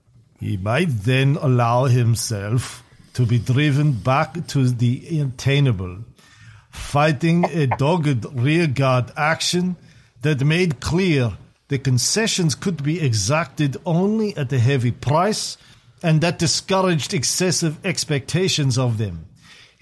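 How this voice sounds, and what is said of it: Fake German Kissinger accent. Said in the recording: “I should do this in a fake Kissinger accent. ... Get my German on.”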